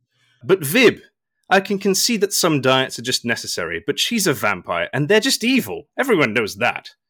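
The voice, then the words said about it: Mock outraged voice. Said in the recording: “in your most outraged voice”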